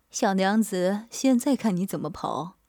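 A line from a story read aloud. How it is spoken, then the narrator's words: Leering laugh. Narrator (Chinese): 阿强淫笑道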